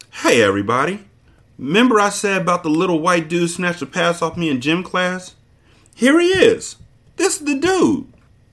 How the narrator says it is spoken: broke open a billboard grin and called out

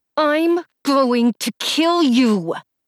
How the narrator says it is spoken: said through clenched teeth

